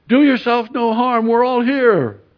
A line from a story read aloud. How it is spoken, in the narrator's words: Paul called out with a loud voice saying